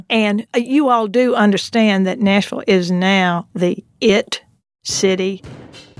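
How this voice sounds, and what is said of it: Exaggerated Southern US accent. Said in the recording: “I'm going to put on my most Southern accent now. I promise. ... I thought that was pretty Southern”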